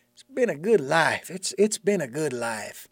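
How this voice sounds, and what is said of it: Southern twang. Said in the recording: “why all of a sudden I break into that twang ... maybe you were in the South”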